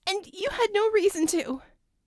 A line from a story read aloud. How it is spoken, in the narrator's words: she squeaked